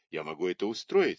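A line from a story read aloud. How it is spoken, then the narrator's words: Plain. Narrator (Russian): сказал Дрейк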